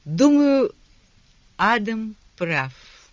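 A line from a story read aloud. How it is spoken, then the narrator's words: Slow. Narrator (Russian): медленно произнесла она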